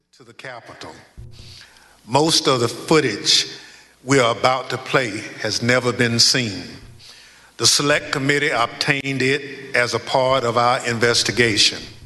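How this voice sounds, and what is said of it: Southern US accent. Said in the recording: “listen to his accent here ... The Southern ... like lawyer ... It's like a Matthew McConaughey lawyer movie ... He's got that accent ... He's Southern”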